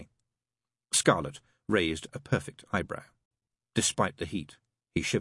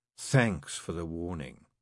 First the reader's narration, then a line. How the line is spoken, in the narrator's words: Scarlet purred